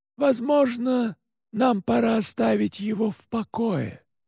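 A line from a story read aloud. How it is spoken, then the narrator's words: Quiet. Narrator (Russian): тихо сказал отец Паскаль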